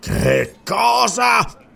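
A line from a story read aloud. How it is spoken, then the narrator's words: Hissing with rage. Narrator (Italian): sibilò Yarafzal, livido di collera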